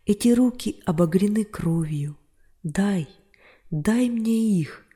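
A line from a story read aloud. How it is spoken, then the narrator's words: Exclaimed. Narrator (Russian): воскликнул апостол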